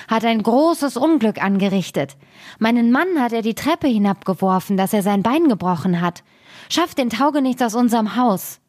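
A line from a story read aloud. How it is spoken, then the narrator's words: Called out. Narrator (German): rief sie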